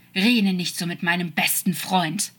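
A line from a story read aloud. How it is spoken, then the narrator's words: Hissed angrily. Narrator (German): fauchte er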